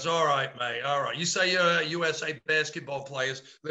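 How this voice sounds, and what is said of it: Poor imitation of an Australian-style accent. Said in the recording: “That's a lousy accent.”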